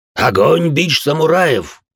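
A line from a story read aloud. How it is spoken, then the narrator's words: Hoarse, menacing. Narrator (Russian): хриплые с угрозой произнес ходячий мертвец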